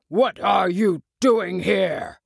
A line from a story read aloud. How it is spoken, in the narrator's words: He cried in a very gruff voice